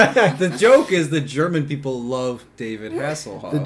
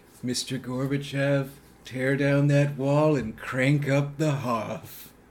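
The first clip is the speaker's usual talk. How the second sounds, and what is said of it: Imitates another person's voice. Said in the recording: “doing a Ronald Reagan impression”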